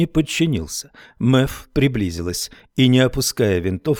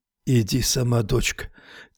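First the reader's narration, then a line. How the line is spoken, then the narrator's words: Quiet. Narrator (Russian): тихо сказал Хармон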